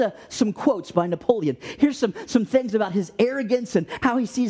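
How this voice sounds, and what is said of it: Usual voice. Nothing is said of it.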